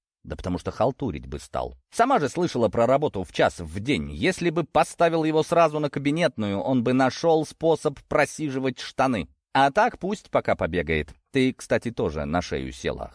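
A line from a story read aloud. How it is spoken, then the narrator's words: Smirking. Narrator (Russian): хмыкнул я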